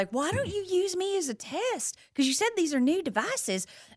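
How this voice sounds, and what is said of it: Southern accent like Mama's Family. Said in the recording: “I start talking like Mama from Mama's Family. ... I turned on the Southern accent”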